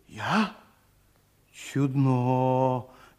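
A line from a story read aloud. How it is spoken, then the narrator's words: Incredulous drawl. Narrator (Russian): недоверчиво протянул он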